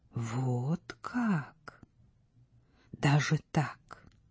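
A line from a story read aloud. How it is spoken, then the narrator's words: Whispered. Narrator (Russian): шептала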